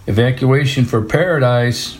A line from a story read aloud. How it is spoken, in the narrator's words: Martin suddenly hollered from two houses down